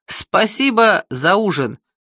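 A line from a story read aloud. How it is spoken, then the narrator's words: Cheerful. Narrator (Russian): весело сказал я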